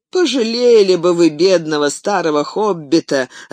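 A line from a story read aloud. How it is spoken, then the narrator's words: Laughing. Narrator (Russian): рассмеялся Фродо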